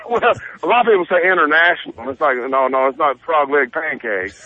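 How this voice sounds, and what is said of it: Noticeable regional accent. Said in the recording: “they giggle so much at my accent”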